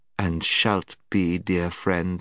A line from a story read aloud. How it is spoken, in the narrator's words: said the witch in a soothing voice, as if she were humouring a child